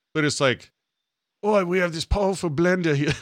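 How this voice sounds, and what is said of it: Put-on Australian infomercial accent. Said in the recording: “This is my powerful Australian accent.”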